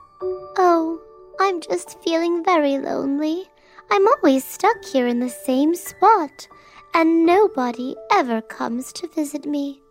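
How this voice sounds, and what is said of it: Tiny character voice. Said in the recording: “in a tiny voice”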